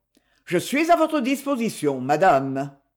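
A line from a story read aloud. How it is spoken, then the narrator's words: Cold retort. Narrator (French): Froidement, il riposta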